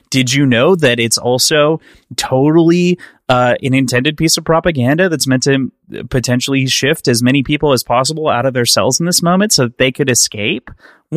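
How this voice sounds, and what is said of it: Imitates another person's voice. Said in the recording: “my best like kind of quasi Stefan impression that I'm ever going to try, but mostly embarrassing ... I didn't try the accent”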